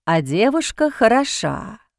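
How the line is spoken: Drawled. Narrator (Russian): протянул он

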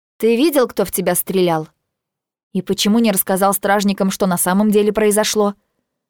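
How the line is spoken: Angry question. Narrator (Russian): Спрашиваю я сердито

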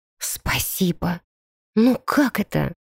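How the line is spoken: Stunned whispered question. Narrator (Russian): спросила шепотом, потрясенная

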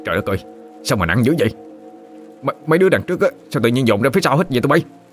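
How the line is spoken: Loud shout. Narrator (Vietnamese): Một trong số họ quát lớn

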